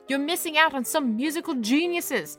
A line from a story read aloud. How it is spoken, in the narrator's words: I shouted at him through the closed door